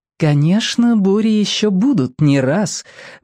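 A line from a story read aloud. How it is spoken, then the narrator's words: Soft voice. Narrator (Russian): мягким голосом сообщил Бамбала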